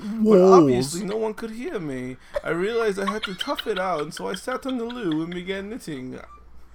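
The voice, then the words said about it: Put-on English accent. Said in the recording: “You gotta do it in the accent... I'm not going to fucking say that in English accent.”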